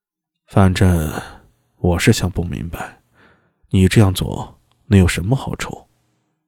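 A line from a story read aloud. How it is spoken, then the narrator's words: Muttering. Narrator (Chinese): 嘀咕道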